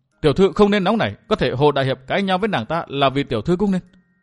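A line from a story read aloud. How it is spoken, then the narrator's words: Stern. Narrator (Vietnamese): Quế Hoa nghiêm giọng nói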